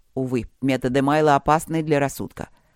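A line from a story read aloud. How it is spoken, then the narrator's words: Snort. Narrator (Russian): хмыкнул Игорь Иванович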